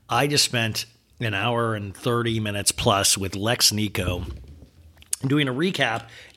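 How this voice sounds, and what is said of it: Rough, worn-out voice. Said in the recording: “My voice is still rough.”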